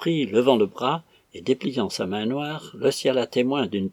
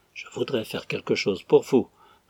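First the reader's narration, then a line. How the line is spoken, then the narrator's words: Gentle. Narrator (French): reprit doucement l'abbé Sénabre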